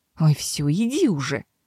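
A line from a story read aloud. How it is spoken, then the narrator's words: Grumbled. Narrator (Russian): буркнул Себастьян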